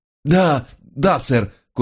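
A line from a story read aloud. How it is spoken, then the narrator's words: Barely wheezing. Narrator (Russian): кое-как прохрипел я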